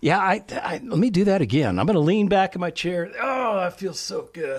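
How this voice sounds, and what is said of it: Distant, off-microphone voice. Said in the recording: “my voice gets kind of distant from the microphone”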